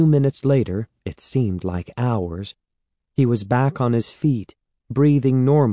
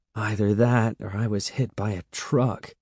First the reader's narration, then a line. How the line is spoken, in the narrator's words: he groaned